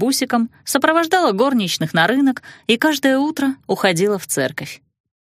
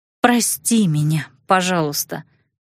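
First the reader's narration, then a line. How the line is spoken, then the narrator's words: Sighing. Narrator (Russian): Вздохнув, я, наконец, сказала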